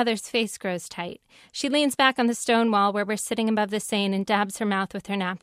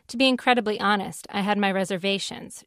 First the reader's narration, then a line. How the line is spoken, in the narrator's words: she says